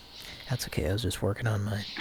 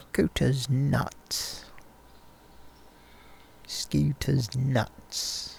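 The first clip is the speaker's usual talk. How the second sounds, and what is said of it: Attempted British accent. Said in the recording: “I'm not sounding like him, I realize, but I'm just trying my different British accents.”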